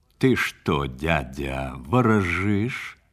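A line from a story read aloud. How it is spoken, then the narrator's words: Plain. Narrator (Russian): спросил стрелец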